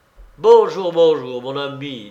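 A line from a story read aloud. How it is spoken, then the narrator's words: Plain. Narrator (French): dit Lavretsky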